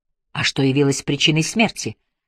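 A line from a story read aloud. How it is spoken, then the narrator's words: Quiet interruption. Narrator (Russian): негромко перебил его Ажар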